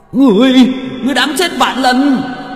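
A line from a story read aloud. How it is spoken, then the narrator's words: Roaring yell. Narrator (Vietnamese): Vị quan thần gào lên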